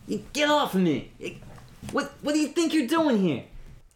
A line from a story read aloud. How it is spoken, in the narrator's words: Perkins yelling